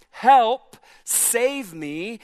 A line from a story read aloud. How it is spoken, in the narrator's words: You're yelling